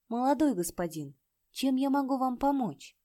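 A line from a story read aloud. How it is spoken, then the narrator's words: Timid young woman asking. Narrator (Russian): юная барышня робко спросила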